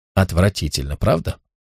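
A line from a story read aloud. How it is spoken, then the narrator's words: Whispering in ear. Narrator (Russian): Тесса прошептала ему в ухо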